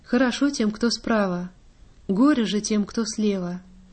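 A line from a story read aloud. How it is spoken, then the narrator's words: Sighing prince speaks. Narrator (Russian): Князь вздохнул и сказал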